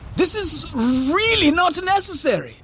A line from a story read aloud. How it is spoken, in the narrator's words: Fareed shouted